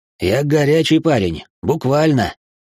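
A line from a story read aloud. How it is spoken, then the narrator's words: Wry snort. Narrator (Russian): Лайтнер хмыкнул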